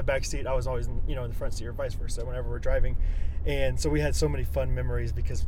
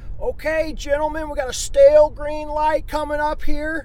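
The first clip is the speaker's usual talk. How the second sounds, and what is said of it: Funny imitated voice of another person. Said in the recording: “he had a pretty funny voice.”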